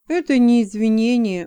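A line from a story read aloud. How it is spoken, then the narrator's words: Glum remark. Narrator (Russian): уныло заметил Джексон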